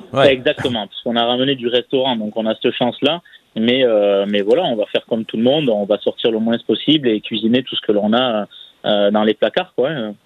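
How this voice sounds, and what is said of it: Southwestern French Landes accent. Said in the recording (French): “Ah, j'aime bien quand vous dites le moins. Ça, c'est votre bel accent landais. ... il y a quand même les Landes qui parlent à travers vous.”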